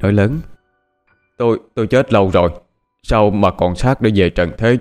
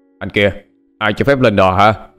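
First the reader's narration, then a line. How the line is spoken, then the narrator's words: Startled shouting. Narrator (Vietnamese): Anh ta tỏ vẻ sửng sốt, tiếng quát tháo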